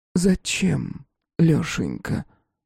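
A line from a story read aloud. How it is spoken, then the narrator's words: Quiet but clear. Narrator (Russian): спросила она тихо, но внятно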